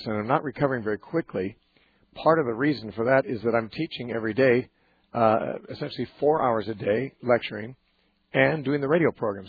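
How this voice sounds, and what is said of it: Hoarse, strained voice. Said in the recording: “my voice has been irregular for the past at least 2 weeks, perhaps more. I'm recovering from laryngitis ... It just prevents me from sounding the way I normally sound.”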